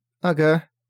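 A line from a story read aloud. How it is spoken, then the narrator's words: Thin high voice. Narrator (Russian): тонким голосом сказала его сестра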